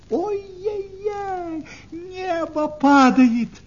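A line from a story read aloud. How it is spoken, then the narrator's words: Screaming. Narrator (Russian): закричала куропаточка-крикунья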